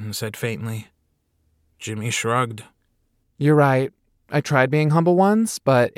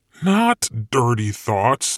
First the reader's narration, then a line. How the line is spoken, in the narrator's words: Satan said, lying through his teeth